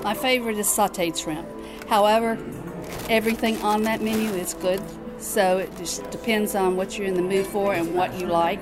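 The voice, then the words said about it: Southern American accent. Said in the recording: “I can tell you've got a southern accent”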